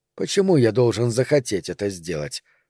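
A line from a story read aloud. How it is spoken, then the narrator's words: Displeased mutter. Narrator (Russian): пробормотал я недовольным тоном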